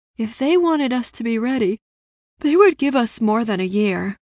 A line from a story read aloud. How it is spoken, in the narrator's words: Ella sighed